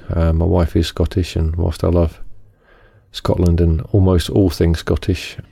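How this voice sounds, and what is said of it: Non-Scottish British accent. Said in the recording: “As you may notice from my accent, I'm not Scottish”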